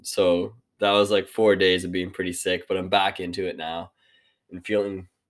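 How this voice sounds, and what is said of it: Slightly congested voice. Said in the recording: “my voice is still, it still sounds like a little bit congested”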